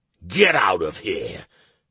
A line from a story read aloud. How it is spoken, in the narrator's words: the rogue barked